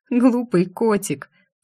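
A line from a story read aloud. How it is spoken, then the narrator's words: Tearful sob. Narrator (Russian): всхлипнула я, потому что удержать слезы не удалось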